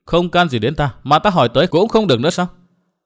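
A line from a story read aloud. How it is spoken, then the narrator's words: Calm, smiling. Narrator (Vietnamese): Nàng áo xanh vẫn mỉm cười bình tĩnh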